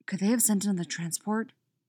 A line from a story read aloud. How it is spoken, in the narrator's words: whispers Poe